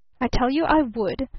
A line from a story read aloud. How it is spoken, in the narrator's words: snapped the younger man